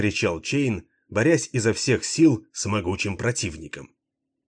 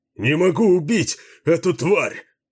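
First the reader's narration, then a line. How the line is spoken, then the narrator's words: Desperate shout. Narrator (Russian): в отчаянии закричал Баллард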